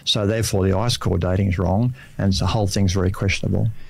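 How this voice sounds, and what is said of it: Australian accent. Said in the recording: “Australian people, Australian, and it's good to have an Aussie accent too on the radio for a change, instead of everything's American”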